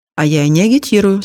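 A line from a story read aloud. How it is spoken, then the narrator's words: Calm answer. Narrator (Russian): спокойно ответила Валя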